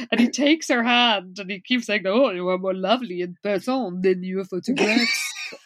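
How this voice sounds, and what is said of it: Inconsistent wandering put-on accent. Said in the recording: “I enjoy how much your accent is wandering around”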